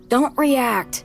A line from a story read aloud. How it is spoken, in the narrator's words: he yells